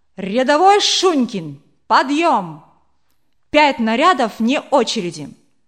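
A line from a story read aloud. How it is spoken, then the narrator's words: Loud command. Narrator (Russian): Павел громко скомандовал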